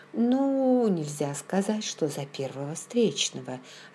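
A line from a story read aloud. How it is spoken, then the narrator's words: Plain. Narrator (Russian): ответила я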